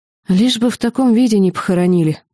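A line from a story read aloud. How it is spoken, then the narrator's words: Sighing. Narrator (Russian): вздохнула она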